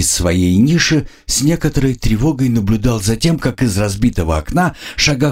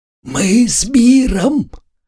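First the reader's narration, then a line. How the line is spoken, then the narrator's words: Loud whisper. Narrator (Russian): громко прошептал правый от меня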